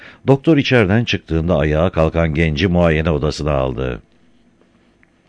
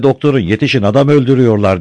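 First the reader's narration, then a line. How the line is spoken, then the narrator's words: Shouting heard. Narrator (Turkish): diye bağırdığı duyuldu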